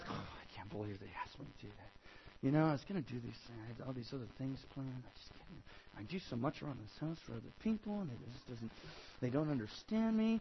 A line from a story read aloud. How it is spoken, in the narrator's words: mumble under your breath